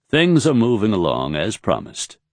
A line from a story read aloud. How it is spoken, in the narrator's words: Raythan said